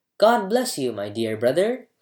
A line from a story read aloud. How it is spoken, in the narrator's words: cried the younger son, overjoyed to see his brother